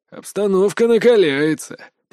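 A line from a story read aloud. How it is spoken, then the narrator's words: Muttering. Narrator (Russian): пробурчал Мокруха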